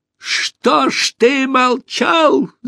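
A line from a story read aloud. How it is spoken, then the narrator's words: Shouting. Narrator (Russian): закричал Пашка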